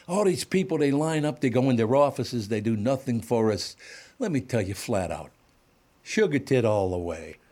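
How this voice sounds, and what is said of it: Imitated New York accent. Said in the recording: “He's got this real New York accent.”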